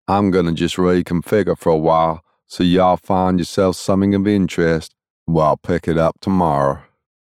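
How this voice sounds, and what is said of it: Low Texan drawl. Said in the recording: “he said in a low Texan drawl”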